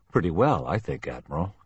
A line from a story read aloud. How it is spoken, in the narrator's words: Kelly chuckled